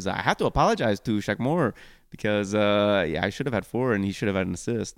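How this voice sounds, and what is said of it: Hany impression with French-sounding accent. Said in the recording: “Why did Hany have a French accent? ... I'm working on the Hany accent. ... It sounded French for a second.”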